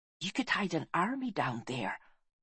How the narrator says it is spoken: whispered Deva

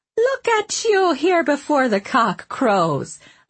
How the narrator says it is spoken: Leona said cheerfully

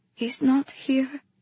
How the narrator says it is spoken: I breathed

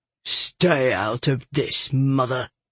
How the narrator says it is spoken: Tack said sullenly

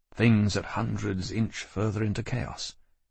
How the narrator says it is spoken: I said gloomily

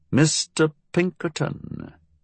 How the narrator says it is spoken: Farquhar murmured

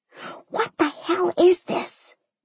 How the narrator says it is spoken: Mimi whispered

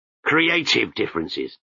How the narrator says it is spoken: he growled

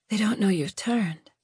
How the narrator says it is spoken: she whispered

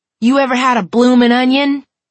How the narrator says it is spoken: Conan yelled at him

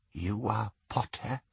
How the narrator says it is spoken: she whispered

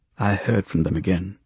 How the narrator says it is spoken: Swain said, his tone even, conversational

